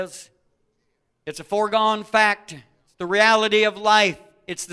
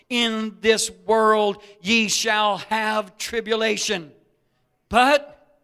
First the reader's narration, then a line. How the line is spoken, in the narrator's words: says